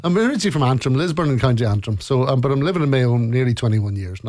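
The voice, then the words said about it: Strong Irish Mayo accent. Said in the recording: “Very strong Mayo accent.”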